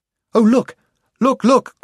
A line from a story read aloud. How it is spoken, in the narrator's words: cried Jill